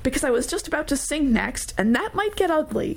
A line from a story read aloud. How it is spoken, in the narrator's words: Trey laughed